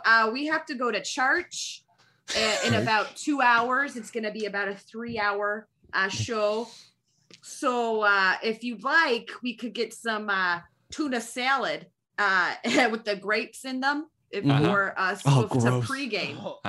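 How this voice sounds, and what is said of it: Put-on Wisconsin accent. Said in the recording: “Can you give me a Wisconsin accent?”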